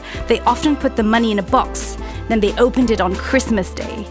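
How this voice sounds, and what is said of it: Strong British English accent. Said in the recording (Chinese): “浓浓的英国口音”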